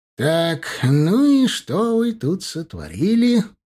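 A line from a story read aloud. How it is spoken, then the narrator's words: Drawled. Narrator (Russian): протянул профессор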